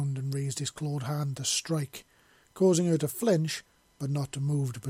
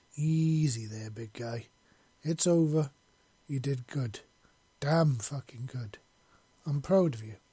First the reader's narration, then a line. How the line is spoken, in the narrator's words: she said, slowly, gently, to calm him down